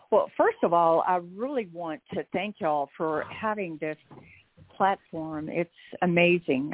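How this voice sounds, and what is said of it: Texas accent. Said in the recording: “It must be my Texas accent”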